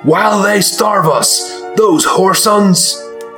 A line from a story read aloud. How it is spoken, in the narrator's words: He started yelling